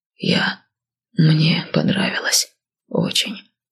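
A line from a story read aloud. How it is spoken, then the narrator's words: Muffled, after a pause. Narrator (Russian): глухо сказал через минуту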